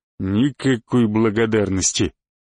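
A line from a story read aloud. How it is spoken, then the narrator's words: Grumbling. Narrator (Russian): проворчал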